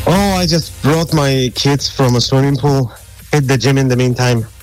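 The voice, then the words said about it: Polish accent in English. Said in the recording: “Where's that accent from? ... That's an accent that I can't get rid of. It's from Poland. ... Polish, right ... You haven't lost your accent at all.”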